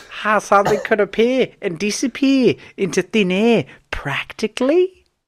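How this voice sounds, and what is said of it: Attempted Australian accent, inconsistent. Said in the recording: “I kind of fucking lost the accent altogether now. ... I'm trying to get back into it. ... Because she's Australian”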